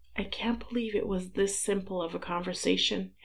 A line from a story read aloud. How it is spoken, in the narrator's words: Harry murmured into his husband's shoulder a few glasses of wine later